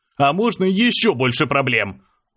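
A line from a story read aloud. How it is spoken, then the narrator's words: Shouted out. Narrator (Russian): выкрикнул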